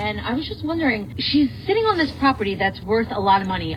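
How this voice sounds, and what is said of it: Long Island accent. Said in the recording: “Such a Long Island girl. I sense my Long Island accent.”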